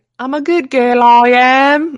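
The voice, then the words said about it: Poor put-on British accent. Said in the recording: “my British accent. It's really appalling.”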